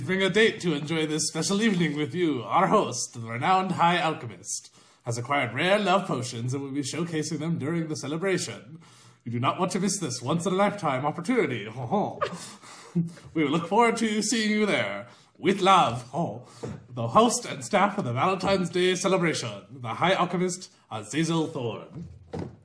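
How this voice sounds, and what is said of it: Well-performed character voice. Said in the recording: “that was so well done in character voice”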